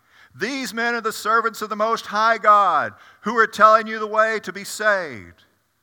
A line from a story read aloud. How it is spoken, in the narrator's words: She followed Paul and the rest of us, shouting